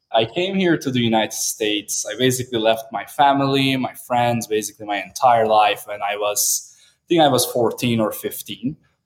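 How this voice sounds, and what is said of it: Turkish accent. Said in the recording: “I am originally from Turkey, so that's where the weird last name and the accent is from.”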